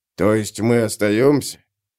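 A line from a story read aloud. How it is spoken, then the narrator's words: Displeased grumbling warrior. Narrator (Russian): Пробурчал один из воинов, всем своим видом показывая, что сам он выбрал бы другой вариант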